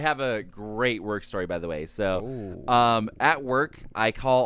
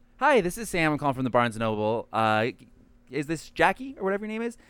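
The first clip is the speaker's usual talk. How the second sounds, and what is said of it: Polite customer service voice. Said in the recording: “do my customer service voice”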